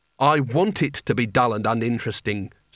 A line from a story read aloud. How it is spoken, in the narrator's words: said Rincewind bitterly